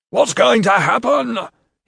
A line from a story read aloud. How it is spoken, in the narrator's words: he yelled